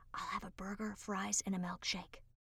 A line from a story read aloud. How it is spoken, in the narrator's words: whispers